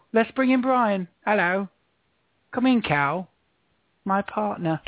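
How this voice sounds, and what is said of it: Put-on British accent. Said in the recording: “I've decided it's going to be a British night. Going to do it entirely in British. Entirely in the British dialect.”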